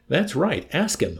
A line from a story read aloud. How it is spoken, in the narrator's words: Hungry Joe exclaimed in a rage